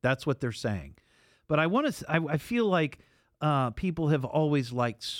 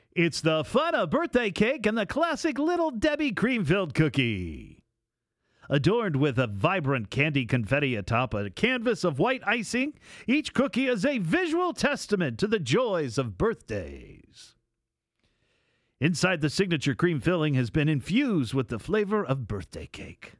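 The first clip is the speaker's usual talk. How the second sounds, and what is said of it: Announcer voice. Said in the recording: “in my announcer voice,”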